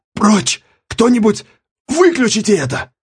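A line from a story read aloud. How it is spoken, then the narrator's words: Rasped. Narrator (Russian): прохрипел Миссарж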